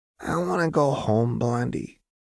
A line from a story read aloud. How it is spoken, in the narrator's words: Jinx muttered sleepily